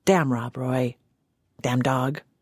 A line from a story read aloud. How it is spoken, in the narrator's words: Grunting what sounded like